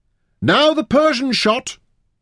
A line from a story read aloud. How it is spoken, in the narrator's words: Taita shouted